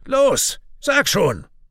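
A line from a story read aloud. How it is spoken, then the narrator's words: Shout. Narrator (German): schreit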